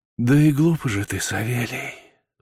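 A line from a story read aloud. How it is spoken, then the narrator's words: Pitying sigh. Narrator (Russian): вздохнула дичиха с жалостью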